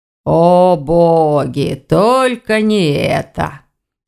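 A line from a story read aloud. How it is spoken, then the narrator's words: Sorrowful groan. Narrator (Russian): горестно простонал Вардван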